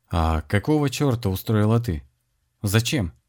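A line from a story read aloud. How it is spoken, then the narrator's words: Deliberately calm question. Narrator (Russian): спокойно спросил Александр, видя, что именно спокойный тон сильнее всего выбивает из колеи собеседницу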